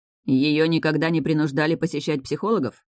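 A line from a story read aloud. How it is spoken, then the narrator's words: Mocking snort. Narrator (Russian): хмыкнул Стейс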